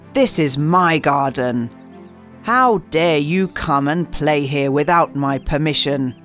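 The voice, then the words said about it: Loud, angry giant voice. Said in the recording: “cried the giant in a very loud voice”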